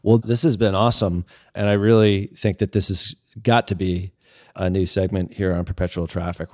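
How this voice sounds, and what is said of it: South Boston accent. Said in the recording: “a good foil to the Boston, the South Boston accent.”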